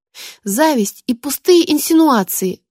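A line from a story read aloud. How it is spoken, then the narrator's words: Mayor exclaiming. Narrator (Russian): воскликнул мэр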